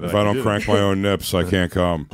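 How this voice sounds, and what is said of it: Imitates another person's voice. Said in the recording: “my impression of Ralph”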